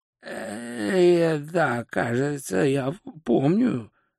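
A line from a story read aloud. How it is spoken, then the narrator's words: Hoarse wheeze. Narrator (Russian): прохрипел волшебник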